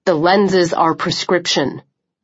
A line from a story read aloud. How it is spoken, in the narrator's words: Chubb said sharply